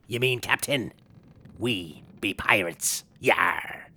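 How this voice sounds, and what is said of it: Exaggerated pirate accent. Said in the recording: “I'm really struggling with your accent.”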